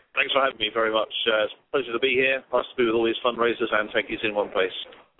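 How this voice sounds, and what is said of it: British accent. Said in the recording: “your accent, that you're not an American. You're from the UK.”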